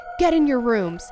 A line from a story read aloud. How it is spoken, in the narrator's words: he yelled